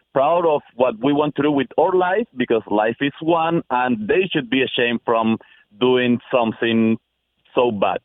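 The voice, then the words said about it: Speaker with a noticeable accent. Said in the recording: “Love your accent”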